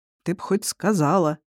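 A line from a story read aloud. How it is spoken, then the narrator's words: Grumbled. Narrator (Russian): проворчал Кир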